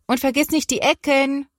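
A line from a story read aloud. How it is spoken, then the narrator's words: Calling from another room. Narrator (German): ruft Mama aus der Küche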